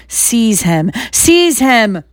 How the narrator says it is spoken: shrieked Voldemort again

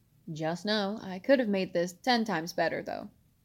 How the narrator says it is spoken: he said with a chuckle

